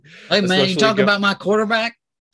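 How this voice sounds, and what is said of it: Impression of Jon Gruden. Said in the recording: “my John Gruden impersonation”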